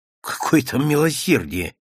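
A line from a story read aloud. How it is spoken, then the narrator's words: Angry. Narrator (Russian): сердито сказал Серпилин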